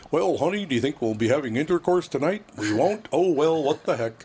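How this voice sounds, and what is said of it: Mock stereotypical white man voice. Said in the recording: “the white guy's like ... imitating a white man”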